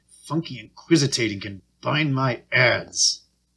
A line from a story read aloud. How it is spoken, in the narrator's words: under her breath, Sammy Joe mumbled